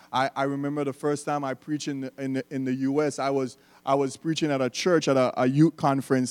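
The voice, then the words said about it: Slight non-American accent. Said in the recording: “My little accent is not throwing you guys off.”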